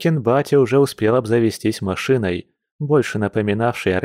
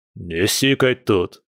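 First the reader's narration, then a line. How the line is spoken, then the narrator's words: Loud laughter. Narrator (Russian): захохотал Илья Николаевич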